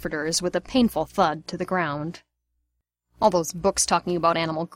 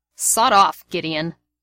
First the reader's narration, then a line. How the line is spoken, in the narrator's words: Sirius snarled